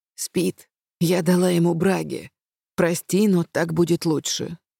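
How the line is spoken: Whispered. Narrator (Russian): шепнула

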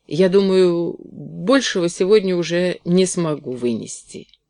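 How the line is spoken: Stammering. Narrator (Russian): запинаясь, сказала Кэти

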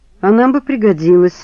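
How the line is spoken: Sighing. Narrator (Russian): вздохнул Саша

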